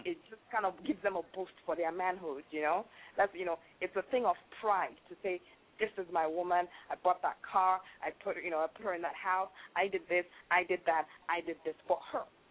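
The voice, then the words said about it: Nigerian accent. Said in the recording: “you have an accent as well. ... I'm from Nigeria.”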